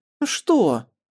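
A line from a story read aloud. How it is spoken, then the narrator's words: Girl's indignant question. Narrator (Russian): возмущенно спросила девочка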